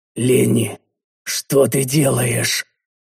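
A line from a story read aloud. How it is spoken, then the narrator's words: Wheezing. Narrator (Russian): просипел я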